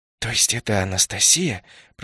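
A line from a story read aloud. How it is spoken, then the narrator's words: Barely audible mouthed whisper. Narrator (Russian): прошептал я одними губами, так, чтобы слышал только мимик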